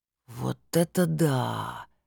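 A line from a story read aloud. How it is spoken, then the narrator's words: Drawn-out drawl. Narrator (Russian): протянул Виталик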